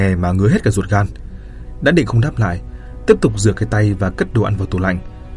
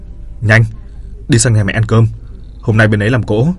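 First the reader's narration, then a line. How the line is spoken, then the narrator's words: Bossy, sharp. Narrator (Vietnamese): Hắn tiếp tục dùng giọng kẻ cả nói gắt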